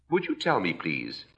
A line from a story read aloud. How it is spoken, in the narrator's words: Alice, a little timidly